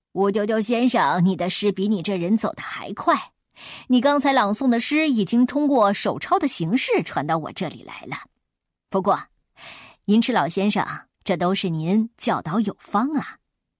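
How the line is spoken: Smiling friendly. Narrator (Chinese): 一个卖圆领衫的老板笑容可掬的也迎上来说

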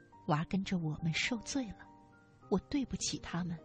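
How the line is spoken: Murmuring. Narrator (Chinese): 母亲喃喃道

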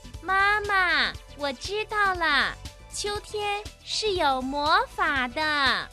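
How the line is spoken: Loud. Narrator (Chinese): 大声地说

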